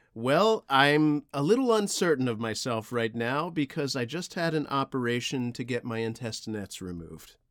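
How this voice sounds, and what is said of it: Inconsistent, shifting put-on accent. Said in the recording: “Your accent keeps shifting, Papa.”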